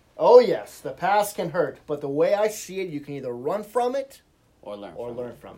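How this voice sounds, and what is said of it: Put-on Rafiki cartoon character accent. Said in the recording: “Rafiki. The Lion King. ... Say it again without the stupid accent.”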